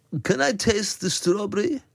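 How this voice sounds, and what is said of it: Put-on German accent. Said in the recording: “this German fella ... I love that you're doing the voice. ... Yeah, I'm doing the voice.”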